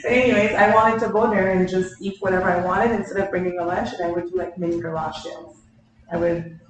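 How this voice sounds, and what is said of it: Speaks with a noticeable accent. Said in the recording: “you're going to get used to the accent.”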